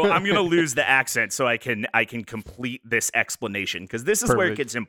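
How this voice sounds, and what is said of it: Usual voice. Nothing is said of it.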